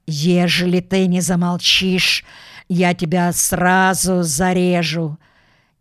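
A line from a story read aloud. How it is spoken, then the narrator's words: Hissed. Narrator (Russian): он прошипел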